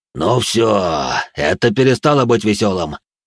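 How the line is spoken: Growling. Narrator (Russian): прорычал бессмертный

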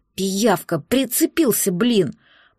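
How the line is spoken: Gritted teeth, forced friendliness. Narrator (Russian): процедила сквозь зубы, которые скрипнули в доброжелательной улыбке

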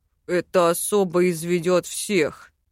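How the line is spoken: Grumbled under breath. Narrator (Russian): проворчал он себе под нос

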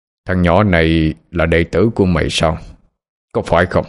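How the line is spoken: Harsh stern voice. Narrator (Vietnamese): Ông già gằn giọng mà nói

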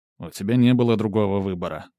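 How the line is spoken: Gruff mutter. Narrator (Russian): буркнул Корут

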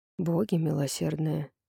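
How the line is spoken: Whisper. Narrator (Russian): прошептал Римонд

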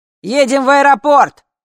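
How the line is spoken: Distant shout from darkness. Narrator (Russian): закричала откуда-то из черноты

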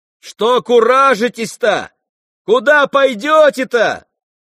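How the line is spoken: Shout from window. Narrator (Russian): закричал Ганя из окна

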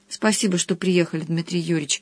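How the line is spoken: Quiet. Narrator (Russian): говорила Алина негромко

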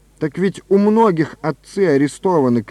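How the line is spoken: Shout. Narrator (Russian): крикнул он

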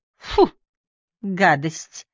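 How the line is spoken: Disgusted snort. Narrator (Russian): фыркнула Ли

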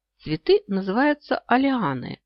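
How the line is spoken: Calm explanation. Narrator (Russian): спокойно объяснил

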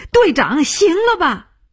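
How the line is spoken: Shouting. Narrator (Chinese): 他叫起来

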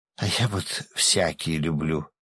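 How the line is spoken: Languid sigh. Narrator (Russian): томно вздохнула женщина

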